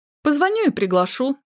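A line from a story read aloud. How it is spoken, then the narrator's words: Forced cheerfulness. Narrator (Russian): наигранно весело произнесла Настя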